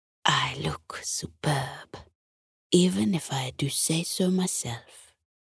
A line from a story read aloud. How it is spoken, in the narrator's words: whispered